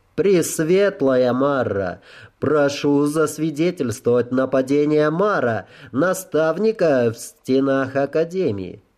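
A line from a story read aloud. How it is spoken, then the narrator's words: Loud, clear enunciation. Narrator (Russian): Громко и четко выговаривая слова, я произнес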